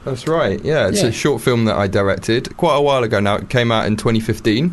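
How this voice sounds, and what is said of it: Rich broadcaster-style radio voice. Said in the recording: “you have a radio voice and a half”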